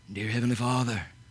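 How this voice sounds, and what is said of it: Fake, put-on pious prayer voice. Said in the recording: “put on that facade voice.”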